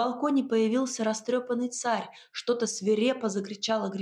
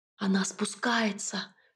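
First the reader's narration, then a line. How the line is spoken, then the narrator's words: Whisper. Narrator (Russian): шепнул Ив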